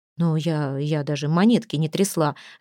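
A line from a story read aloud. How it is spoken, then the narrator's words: Bewildered mutter. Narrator (Russian): растерянно пробормотала Анжелика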